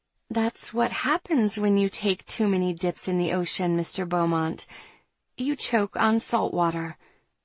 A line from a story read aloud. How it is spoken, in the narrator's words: Letting my fury carry me, I meet his gaze and sweetly reply